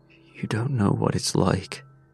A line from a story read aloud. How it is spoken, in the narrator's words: I whispered